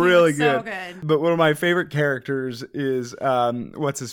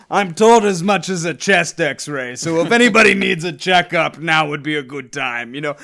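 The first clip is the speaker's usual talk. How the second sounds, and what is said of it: Good put-on Russian accent. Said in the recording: “That was a great Russian accent.”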